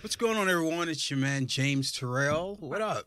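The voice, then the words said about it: Put-on radio announcer voice. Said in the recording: “your voice is changed like that? ... He got the radio voice.”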